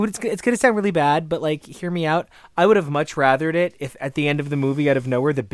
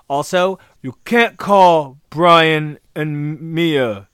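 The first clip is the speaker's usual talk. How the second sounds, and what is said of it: Imitates a film character's voice. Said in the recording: “That's my Letty impression.”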